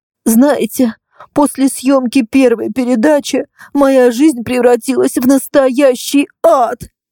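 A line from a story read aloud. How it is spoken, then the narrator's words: Sobbing speech. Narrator (Russian): говорила она, всхлипывая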